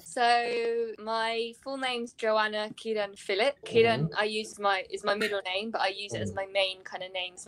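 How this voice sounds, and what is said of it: British accent. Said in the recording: “I can't help the British accent”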